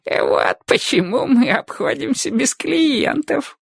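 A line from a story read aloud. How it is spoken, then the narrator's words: Old man giggling. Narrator (Russian): хихикнул старик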